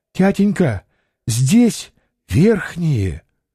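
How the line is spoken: Whisper. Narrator (Russian): шепнула Ольга

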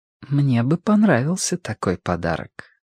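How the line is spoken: Quiet, soft. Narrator (Russian): тихо сказала возлюбленная спутница

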